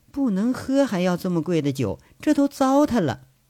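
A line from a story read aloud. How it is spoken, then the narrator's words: Murmuring. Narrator (Chinese): 那喃喃的说着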